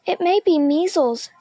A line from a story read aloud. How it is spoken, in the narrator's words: Miss Midas said anxiously